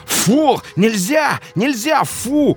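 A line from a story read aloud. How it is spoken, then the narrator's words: Frightened yelling over barking. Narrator (Russian): орал побледневший парень, пытаясь перекричать лай собаки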